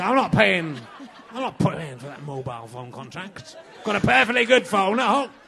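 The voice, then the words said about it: Put-on Yorkshire accent. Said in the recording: “I do quite a good Yorkshire accent.”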